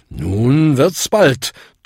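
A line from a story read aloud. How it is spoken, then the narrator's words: Thundering. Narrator (German): donnerte Bung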